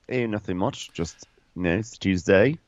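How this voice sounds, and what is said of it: Put-on Australian accent. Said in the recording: “talking in an Australian accent for no good reason”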